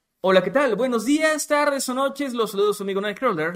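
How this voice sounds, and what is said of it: Announcer voice. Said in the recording (Spanish): “saludo con voz de locutor”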